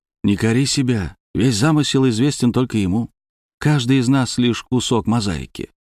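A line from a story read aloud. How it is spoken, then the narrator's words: Ingratiating, insinuating tone. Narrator (Russian): вкрадчиво сказал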